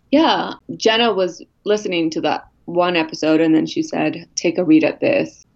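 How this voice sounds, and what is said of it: Husky, sick-sounding voice. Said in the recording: “I have a very new sexy voice today ... When she gets sick and then she calls her sexy voice”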